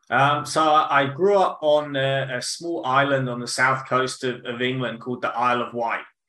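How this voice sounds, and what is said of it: English accent. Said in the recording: “your accent, your English”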